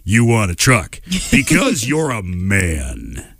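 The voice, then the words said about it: Imitates a truck advertisement voice. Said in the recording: “There's a good impersonation.”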